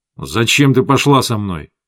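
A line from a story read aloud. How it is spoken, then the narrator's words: Angry question. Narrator (Russian): зло спросил он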